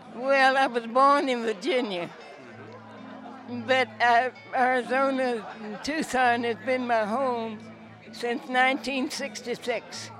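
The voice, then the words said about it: Noticeable regional accent. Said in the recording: “Where'd you get that accent?”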